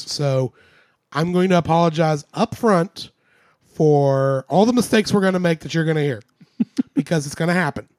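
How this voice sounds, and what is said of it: Congested voice. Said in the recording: “I am fighting congestion. That's why my voice sounds so lovely and sultry ... that's why I sound the way I do”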